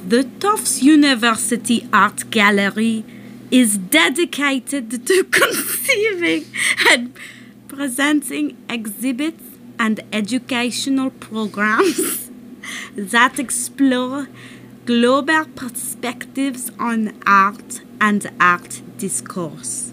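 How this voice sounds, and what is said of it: Put-on French accent. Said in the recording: “I will read it in my best French accent.”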